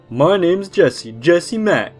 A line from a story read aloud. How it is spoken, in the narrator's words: at the top of his lungs in his obnoxious fake Boston accent